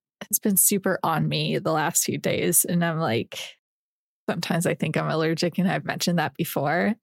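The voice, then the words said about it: Nasal, congested voice. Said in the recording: “My voice is already so nasally. It's just going to be even worse.”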